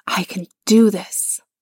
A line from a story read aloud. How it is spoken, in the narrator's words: whispered to himself